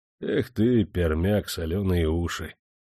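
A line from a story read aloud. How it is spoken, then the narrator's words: Mocking sigh. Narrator (Russian): насмешливо вздохнул капрал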